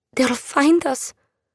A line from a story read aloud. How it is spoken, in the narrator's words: she said, her voice uncertain